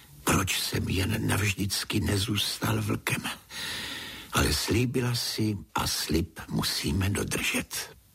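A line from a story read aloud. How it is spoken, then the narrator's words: Sighing after long pause. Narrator (Czech): Po dlouhé, dlouhé chvíli si povzdechl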